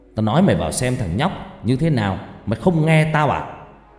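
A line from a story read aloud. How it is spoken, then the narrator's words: Harsh shout. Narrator (Vietnamese): Thầy Phong liền quát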